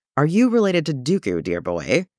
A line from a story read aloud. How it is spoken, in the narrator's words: The laugh turned into a grimace